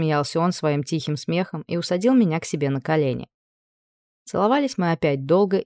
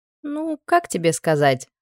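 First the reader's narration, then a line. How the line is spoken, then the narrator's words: Laughing. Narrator (Russian): рассмеялась я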